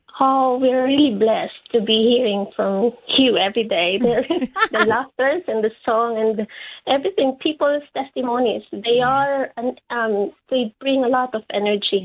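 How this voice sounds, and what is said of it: Filipino accent. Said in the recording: “you got a Filipino accent there”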